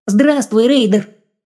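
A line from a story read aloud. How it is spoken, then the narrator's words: Monster's thin, childlike greeting. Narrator (Russian): поприветствовала чудо-юдо неожиданно тонким, почти детским голосом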